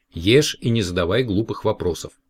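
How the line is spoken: Stern mother. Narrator (Russian): Но мама строго сказала

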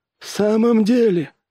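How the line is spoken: Forced out. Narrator (Russian): выдавил Джонс

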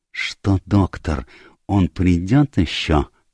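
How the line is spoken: Whispered question. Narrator (Russian): шепотом спросил Пуаро

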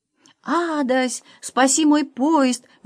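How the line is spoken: Exclaiming. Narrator (Russian): воскликнул пан Клякса

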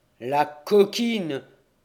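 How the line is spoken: Exclaimed. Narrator (French): s'écria le père Mathieu

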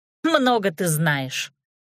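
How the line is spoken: Scornful snort. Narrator (Russian): фыркнула Нюта

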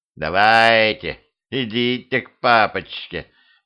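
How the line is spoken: Purring devil. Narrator (Russian): промурлыкал дьявол

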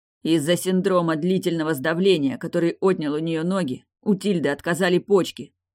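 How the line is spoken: Plain. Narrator (Russian): ответил Дали

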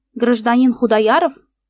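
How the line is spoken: Stern officer's question. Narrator (Russian): строго спросил офицер

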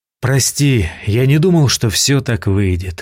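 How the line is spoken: Sigh. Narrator (Russian): вздохнул я

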